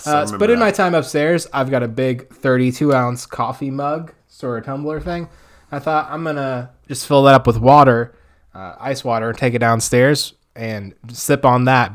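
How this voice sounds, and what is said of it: Hoarse voice. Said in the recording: “my voice was too hoarse ... my throat's hoarse”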